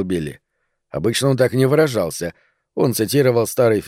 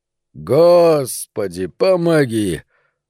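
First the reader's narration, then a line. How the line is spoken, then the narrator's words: Weary drawl. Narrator (Russian): устало протянул Пономарь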